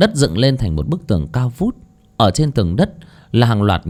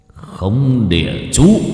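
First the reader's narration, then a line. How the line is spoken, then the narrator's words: Shouted incantation. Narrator (Vietnamese): Ông ta miệng niệm thần chú, đoạn quát lên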